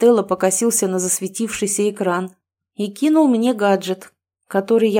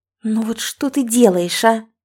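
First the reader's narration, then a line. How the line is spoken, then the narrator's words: Hissing. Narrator (Russian): зашипела на брата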